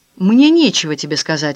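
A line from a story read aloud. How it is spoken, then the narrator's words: Harsh reply. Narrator (Russian): ответил Филипп жестким тоном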